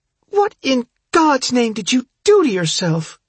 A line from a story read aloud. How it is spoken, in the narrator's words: She gasps